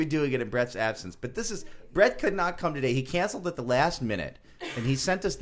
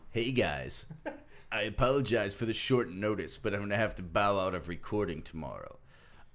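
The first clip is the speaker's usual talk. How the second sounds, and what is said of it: Imitates another person's voice. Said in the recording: “attempt to do an impression of Brett while I'm reading it ... I was working on this impression before the show. You guys thought I didn't quite get there.”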